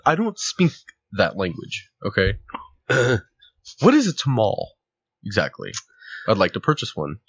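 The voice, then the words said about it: Put-on 'white' voice. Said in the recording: “Is that your white black person voice?”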